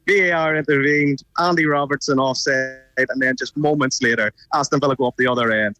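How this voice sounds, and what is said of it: Northern Irish Belfast accent. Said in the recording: “I love your accent... I'm from Belfast... I don't think I've lost it too much”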